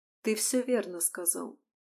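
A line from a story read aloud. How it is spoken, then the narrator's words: Quiet but firm. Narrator (Russian): негромко, но твердо проговорила Алисия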